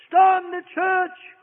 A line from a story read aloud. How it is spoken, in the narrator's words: cried Satan